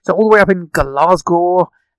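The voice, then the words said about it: Poor put-on Scottish accent. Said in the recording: “my attempt at a very poor Scottish accent.”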